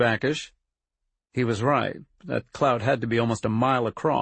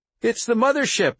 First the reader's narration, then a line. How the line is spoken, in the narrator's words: Harriet cried with glee